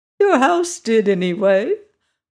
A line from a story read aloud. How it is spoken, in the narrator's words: replied the little old woman with a laugh